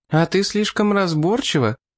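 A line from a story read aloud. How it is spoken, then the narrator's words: Laughing. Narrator (Russian): рассмеялась Клерон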